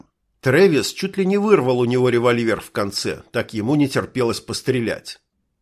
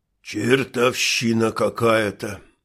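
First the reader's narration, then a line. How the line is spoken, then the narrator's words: Muttered under breath. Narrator (Russian): пробормотал себе под нос Билл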